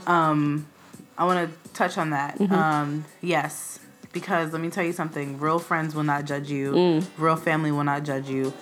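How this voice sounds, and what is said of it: Raspy voice. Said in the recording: “My voice is very ... It's raspy.”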